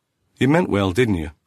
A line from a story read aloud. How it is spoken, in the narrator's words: Cooper asked